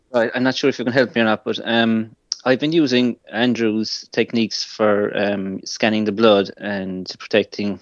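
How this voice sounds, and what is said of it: Irish accent. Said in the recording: “Oh, Ireland. Lovely. Great accent.”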